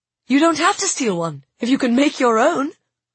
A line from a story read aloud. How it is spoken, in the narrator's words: I said excitedly